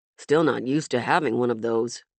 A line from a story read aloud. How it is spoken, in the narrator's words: Hero muttered